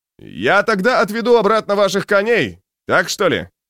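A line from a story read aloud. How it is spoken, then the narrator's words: Shouted. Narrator (Russian): крикнул Антауп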